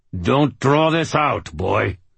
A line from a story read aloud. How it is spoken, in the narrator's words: Ortega said through clenched teeth